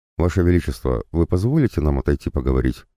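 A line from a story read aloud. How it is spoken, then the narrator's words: Plain. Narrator (Russian): спросил я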